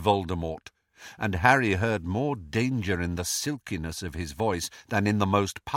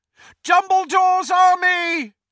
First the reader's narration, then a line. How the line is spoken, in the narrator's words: he shouted